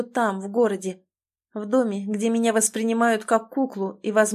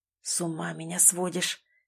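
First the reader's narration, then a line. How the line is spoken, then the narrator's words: Hoarse rasp. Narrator (Russian): хрипит Тимур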